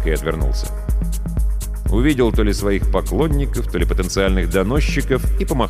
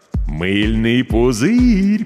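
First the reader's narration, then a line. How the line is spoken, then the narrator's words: Drawling. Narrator (Russian): протянул Миша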